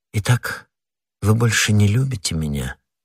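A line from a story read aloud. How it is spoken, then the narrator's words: Slow, sad. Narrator (Russian): медленно и печально произнесла прокурорша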